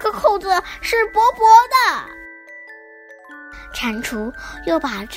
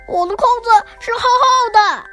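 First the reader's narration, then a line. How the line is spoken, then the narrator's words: Loud shout. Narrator (Chinese): 蟾蜍大声的喊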